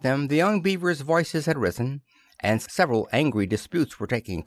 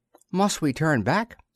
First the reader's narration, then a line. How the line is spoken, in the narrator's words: asked Twink anxiously